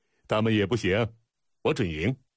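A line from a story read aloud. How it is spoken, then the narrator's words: Laughing. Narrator (Chinese): 春申君打量了一圈笑道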